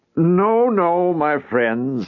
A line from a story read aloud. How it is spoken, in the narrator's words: he said to them in a lilting voice, seeking to ingratiate himself with them by a fatherly scolding